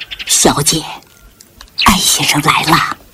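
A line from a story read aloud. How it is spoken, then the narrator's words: Whispered. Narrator (Chinese): 陈妈对坐在沙发上的潇潇悄声说道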